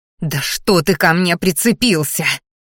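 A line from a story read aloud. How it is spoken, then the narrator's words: Angry hiss near ear. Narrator (Russian): послышалось злобное шипение над ухом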